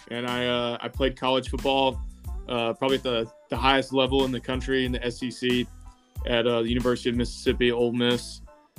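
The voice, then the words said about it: Slight Southern US accent. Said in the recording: “I'm from the state of Mississippi ... an actual state in the South, hence my accent a little bit.”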